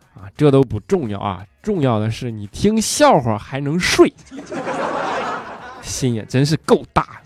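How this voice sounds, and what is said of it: Northeastern Chinese accent. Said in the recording (Chinese): “好听的东北话 ... 我这东北口音实在是太带感了”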